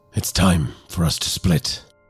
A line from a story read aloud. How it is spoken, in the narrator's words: whispered, his voice barely audible above the din